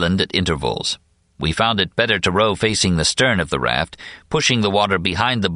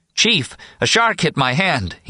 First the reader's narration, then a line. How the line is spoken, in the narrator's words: yelled, his voice shaking slightly